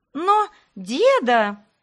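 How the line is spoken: Exclaimed in chorus. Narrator (Russian): хором воскликнули они

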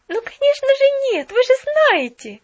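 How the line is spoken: Jubilant exclamation. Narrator (Russian): ликующе воскликнула Поллианна

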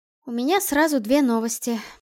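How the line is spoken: Sighing. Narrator (Russian): вздохнула Альда

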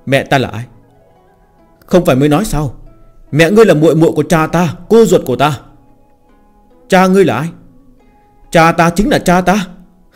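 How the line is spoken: Resigned sigh. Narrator (Vietnamese): hắn bất đắc dĩ thở dài nói

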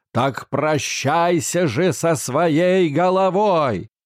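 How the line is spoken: Furious roaring shout. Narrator (Russian): В страшном гневе король закричал, как лев

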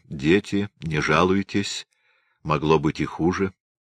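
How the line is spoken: Quiet. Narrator (Russian): Царь сказал тихо

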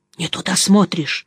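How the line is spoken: Whisper. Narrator (Russian): шепнул Жеглов

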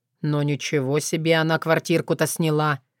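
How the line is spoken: Snorting remark. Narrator (Russian): хмыкнул Дима

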